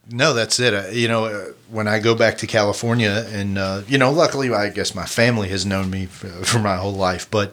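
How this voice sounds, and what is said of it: Kentucky accent. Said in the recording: “somebody will hear my accent ... of Kentucky”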